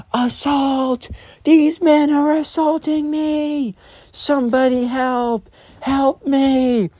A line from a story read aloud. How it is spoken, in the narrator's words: she's screaming